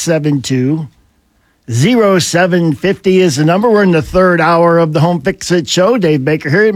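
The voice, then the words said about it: Rough, unwell-sounding voice. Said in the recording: “Yes, sound bad. ... You sound terrible. ... I'm blaming it on the grass pollen”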